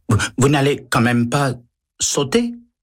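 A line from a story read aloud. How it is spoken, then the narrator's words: Stammering. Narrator (French): balbutie le liftier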